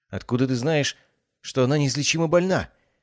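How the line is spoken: Faint, faltering murmur. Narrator (Russian): пролепетала Евгения, еле шевеля губами

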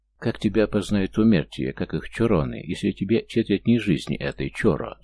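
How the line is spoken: Plain. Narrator (Russian): спросил я

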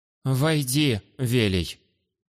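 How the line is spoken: Slightly trembling announcement. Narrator (Russian): Немного дрогнувшим голосом объявила хозяйка

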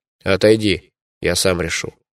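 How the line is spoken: Cold. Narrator (Russian): холодно сказал я

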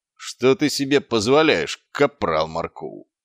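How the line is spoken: Growling. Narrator (Russian): прорычал Квирк

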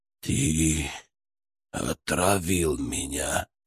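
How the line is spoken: Weak hiss full of hatred. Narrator (Russian): прошипел Мкртчан, пытаясь вложить в свой слабый голос всю свою ненависть

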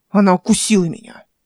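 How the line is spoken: Angry declaration. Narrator (Russian): зло заявил

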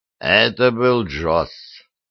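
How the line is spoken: Tired. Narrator (Russian): сообщил он устало

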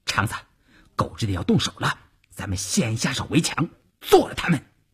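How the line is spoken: Low voice. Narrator (Chinese): 邵月低声对前面的晋中人说

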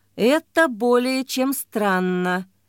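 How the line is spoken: Slow, deliberate. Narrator (Russian): медленно сказал ее спутник

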